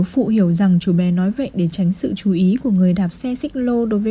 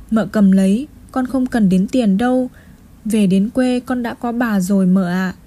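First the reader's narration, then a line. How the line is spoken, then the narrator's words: Boy's soft sighing voice. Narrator (Vietnamese): Chú bé nói nhỏ trong tiếng thở dài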